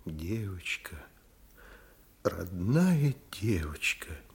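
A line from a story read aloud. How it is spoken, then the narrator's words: Quiet. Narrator (Russian): негромко выговорила Вера Никандровна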